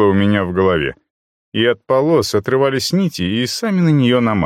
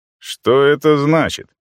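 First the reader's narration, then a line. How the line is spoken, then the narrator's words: Loud. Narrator (Russian): Мой голос прозвучал достаточно громко, чтобы перекрыть все остальные звуки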